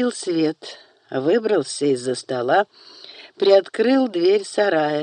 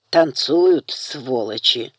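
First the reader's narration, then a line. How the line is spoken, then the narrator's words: Hateful through teeth. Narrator (Russian): ненавистно процедил Даниэль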